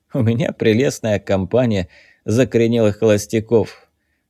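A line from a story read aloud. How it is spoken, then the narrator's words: Laughing. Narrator (Russian): рассмеялся Сарычев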